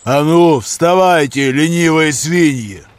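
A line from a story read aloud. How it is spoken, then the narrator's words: Thundering right in the ear. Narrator (Russian): Прогремел почти в самое ухо голос этого наглеца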